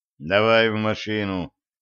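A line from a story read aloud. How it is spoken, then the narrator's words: Curt, dry. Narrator (Russian): сухо бросил Федя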